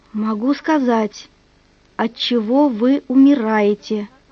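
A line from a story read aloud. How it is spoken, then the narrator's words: Whisper. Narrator (Russian): шептала она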